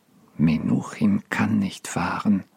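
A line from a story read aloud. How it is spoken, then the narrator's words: Quiet repetition. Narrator (German): wiederholte ebenso leise Mendel Singer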